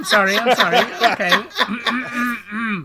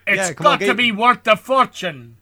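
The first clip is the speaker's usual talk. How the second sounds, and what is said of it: Sean Connery impression, Scottish accent. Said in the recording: “Said John Connery ... Connery ... I can just think Sean Connery. It's just Scottish ... It's just Sean Connery looking at the script from Highlander ... No, that's worse.”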